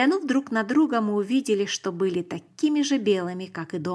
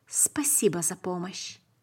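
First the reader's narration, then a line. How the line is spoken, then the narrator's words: Barely audible speech. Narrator (Russian): сказал еле слышно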